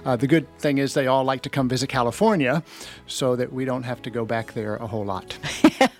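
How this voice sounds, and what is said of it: Southern US accent. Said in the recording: “I'm hearing your Southern accent.”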